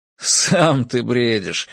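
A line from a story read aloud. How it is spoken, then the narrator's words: Laughing retort. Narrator (Russian): рассмеялся Фентрис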